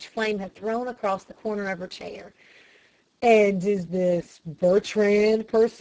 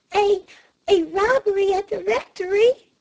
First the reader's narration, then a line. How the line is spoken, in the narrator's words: she gasped